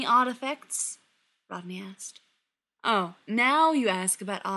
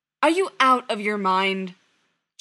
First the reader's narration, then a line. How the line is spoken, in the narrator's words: John snapped